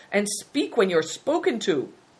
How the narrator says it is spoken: cried the Prince of the Belens

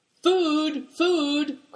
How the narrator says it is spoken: cried Affliction

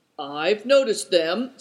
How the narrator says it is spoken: said Good Fortune sleepily

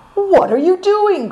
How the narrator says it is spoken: cried Naidong in alarm

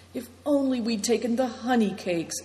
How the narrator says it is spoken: sighed Christian

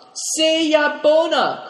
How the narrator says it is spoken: cried Dombit

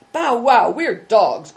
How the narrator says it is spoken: cried Christian

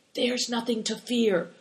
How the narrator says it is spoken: whispered Christian

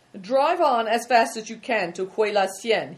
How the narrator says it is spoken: he called out to Good Fortune

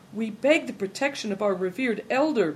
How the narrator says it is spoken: pleaded Big Tiger

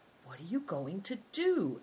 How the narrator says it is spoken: asked Big Tiger quietly

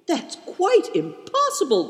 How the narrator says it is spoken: cried Christian

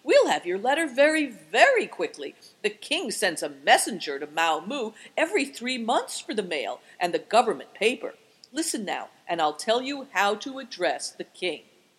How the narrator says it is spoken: cried joyfully

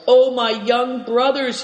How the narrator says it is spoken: he roared

